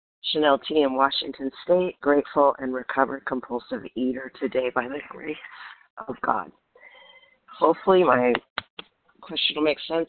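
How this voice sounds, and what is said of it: Slightly hoarse, croaky voice. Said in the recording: “I have a little bit of a frog in my throat”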